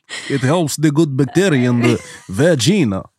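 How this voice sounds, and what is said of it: Put-on Eastern European accent. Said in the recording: “Say with an Eastern European accent.”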